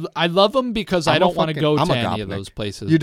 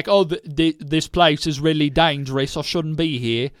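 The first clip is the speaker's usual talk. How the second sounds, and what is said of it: Imitates another person's voice. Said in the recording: “terrible impression”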